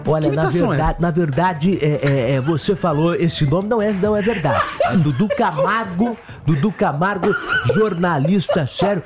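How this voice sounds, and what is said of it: Imitates another person's voice. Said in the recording (Portuguese): “outra imitação ... que viralizou, é a do Dudu Camargo ... Mas outra imitação”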